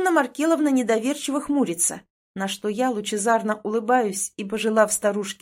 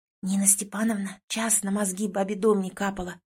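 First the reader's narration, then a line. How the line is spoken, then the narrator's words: Heated whisper. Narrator (Russian): Горячим шепотом сообщает Тонька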